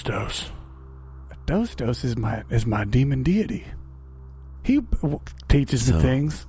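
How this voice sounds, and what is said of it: Speaks in a put-on accent. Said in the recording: “I'm still talking in this accent.”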